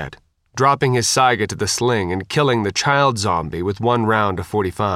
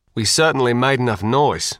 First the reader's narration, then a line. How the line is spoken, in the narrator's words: Steve said